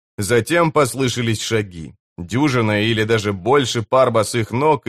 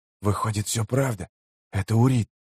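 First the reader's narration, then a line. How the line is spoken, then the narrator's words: Unknown voice whispering. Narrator (Russian): прошептал чей-то голос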